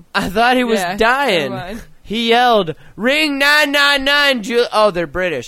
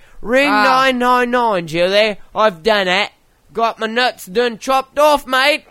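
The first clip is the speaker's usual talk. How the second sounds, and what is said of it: Bad put-on Australian accent. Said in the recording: “I had the worst Aussie accent ever.”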